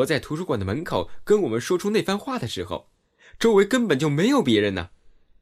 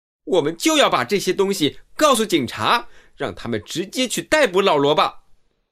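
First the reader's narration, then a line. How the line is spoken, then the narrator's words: Excited and angry. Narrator (Chinese): 兰西激动而愤怒地说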